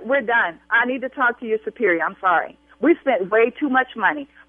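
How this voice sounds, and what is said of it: Angry raised voice. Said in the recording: “I will continue to raise my voice”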